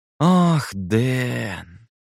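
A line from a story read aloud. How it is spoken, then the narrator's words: Drawled with condescending pity. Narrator (Russian): со снисходительной жалостью протянул Эндрю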